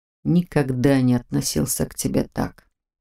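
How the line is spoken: Whisper. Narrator (Russian): прошептал он

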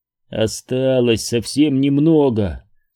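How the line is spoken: Plain. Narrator (Russian): сказал он себе

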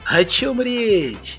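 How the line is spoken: Cheerful exclamation. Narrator (Russian): весело воскликнул полицейский

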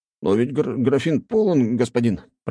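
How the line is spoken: Mumbled. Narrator (Russian): промямлил тот

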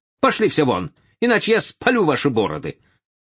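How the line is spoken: Shouting. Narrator (Russian): Карл XII высунулся из окна второго этажа, крикнув своим друзьям

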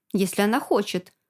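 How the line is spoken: Plain. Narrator (Russian): ответила я Алена

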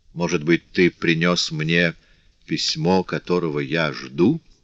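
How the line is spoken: Plain. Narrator (Russian): спросил

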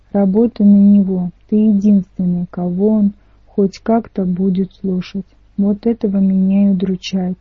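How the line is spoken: Sighing. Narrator (Russian): вздохнул Ника

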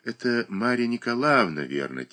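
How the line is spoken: Quiet musing. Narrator (Russian): тихо соображает Даша

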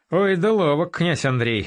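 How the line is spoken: Chuckling. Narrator (Russian): хохотнул Батецкий

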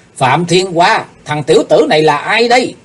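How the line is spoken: Sudden loud shout. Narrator (Vietnamese): đột nhiên hét lớn

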